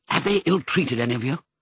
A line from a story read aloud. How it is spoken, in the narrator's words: asked anxiously